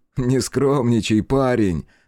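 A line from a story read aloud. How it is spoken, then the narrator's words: Laughing. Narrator (Russian): засмеялся Накакура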